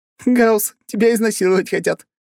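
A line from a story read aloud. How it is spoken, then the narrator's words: Laughing. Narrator (Russian): рассмеялась Аня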